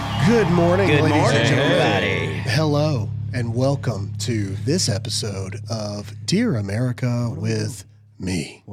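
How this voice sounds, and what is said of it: Sultry radio announcer voice. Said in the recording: “my radio voice ... That sounds like a Skinamax voice ... my romantic novel voice”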